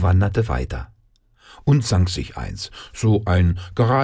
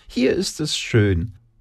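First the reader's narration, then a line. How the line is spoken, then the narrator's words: Squeaky. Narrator (German): piepste sie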